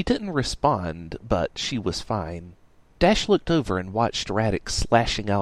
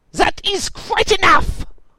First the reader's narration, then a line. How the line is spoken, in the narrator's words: screamed out a vicious, tiny little man